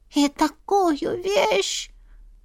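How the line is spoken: Breathy, cat. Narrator (Russian): выдохнул котик

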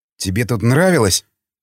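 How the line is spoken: Spiteful smirking tone. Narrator (Russian): зло ухмыльнулся Николай

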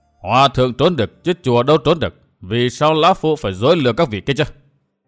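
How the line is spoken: Angry old man. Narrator (Vietnamese): Lão nhân áo xám tức giận

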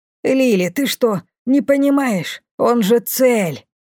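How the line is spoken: Fierce breathy whisper. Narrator (Russian): свирепо выдохнула мне на ухо Бумба

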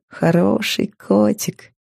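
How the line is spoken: Laughing. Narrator (Russian): смеясь сказала я

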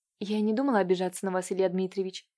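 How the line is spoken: Quiet. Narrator (Russian): тихо вымолвила Катюша

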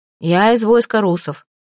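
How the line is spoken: Calm. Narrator (Russian): спокойно ответила Малфреда

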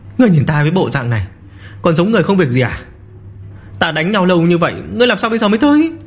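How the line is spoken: Panting, breathless speech. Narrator (Vietnamese): Lâm Phàm toàn thân mồ hôi ướt đẫm, thở hổn hển nói

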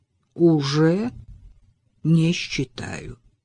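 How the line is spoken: Slow, deliberate. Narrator (Russian): медленно и раздельно ответил Алистер

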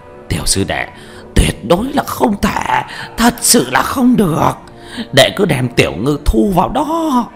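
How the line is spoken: Hoarse through gritted teeth. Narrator (Vietnamese): Lão Quách nghiến răng khàn khàn nói

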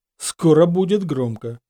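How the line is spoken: Snorted. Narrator (Russian): хмыкнул

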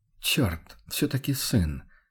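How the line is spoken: Barely audible mutter. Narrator (Russian): чуть слышно пробормотал охотник

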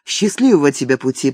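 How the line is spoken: Muffled murmur. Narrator (Russian): пробормотала она, уткнувшись ему в плечо

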